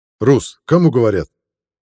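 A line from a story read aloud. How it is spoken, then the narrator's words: Sharp shout. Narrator (Russian): прикрикнул Бахир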